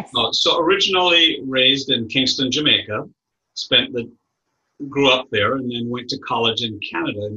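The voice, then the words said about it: Jamaican-sounding accent. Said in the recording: “clearly you have a funny accent”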